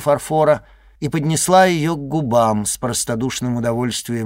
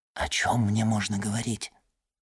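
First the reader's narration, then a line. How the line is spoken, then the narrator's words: Whispered question. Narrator (Russian): шепотом спросил Альбер графа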